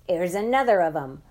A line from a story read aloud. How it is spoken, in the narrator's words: yelling